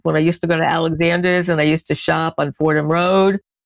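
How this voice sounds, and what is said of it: Bronx accent. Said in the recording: “here I'm going to go back into my Bronx accent ... not to be confused, the Bronx accent with the Brooklyn accent”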